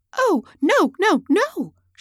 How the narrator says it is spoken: she cried

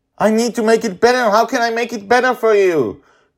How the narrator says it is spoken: he shouts

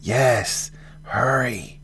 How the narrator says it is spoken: hissed another

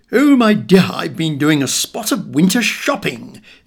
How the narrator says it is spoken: exclaimed Granny with glee

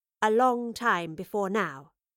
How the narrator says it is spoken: she replied

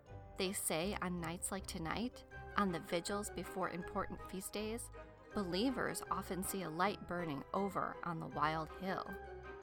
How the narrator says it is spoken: said, his voice barely louder than a whisper

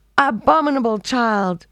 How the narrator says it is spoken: shrieked the old woman

